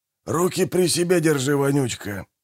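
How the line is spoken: Grumbling mutter. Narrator (Russian): буркнул Манфред

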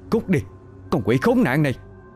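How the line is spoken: Panicked shout. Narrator (Vietnamese): Ô Mây hốt hoảng rồi hét lớn

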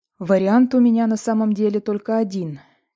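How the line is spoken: Heavy sigh. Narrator (Russian): тяжело вздохнул Леви

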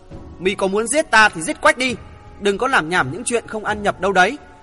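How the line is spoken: Fearful, resentful loud shout. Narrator (Vietnamese): vừa lo sợ vừa oán ghét, gã hừ một tiếng quát lớn

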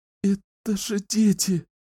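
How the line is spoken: Sobbing. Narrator (Russian): всхлипывала Кэлен

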